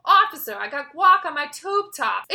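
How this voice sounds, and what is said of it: Put-on Chicago accent. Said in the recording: “in like the Chicago accent ... he like does this like really good Chicago accent.”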